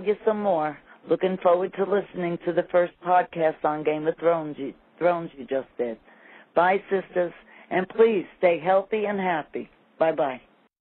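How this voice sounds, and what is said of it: New York accent. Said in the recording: “I just love your accent. ... I think it's so cute. ... New York. ... I know you don't think you have an accent, probably, but to us living in Texas, I just love it.”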